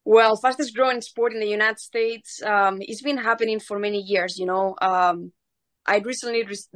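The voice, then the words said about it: Spanish-accented English. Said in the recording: “if you can't tell from the accent, she was born in Spain”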